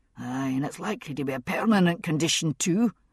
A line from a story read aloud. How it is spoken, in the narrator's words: Roger muttered